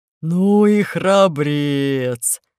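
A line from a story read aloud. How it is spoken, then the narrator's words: Deep booming laughter. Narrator (Russian): захохотал басом волк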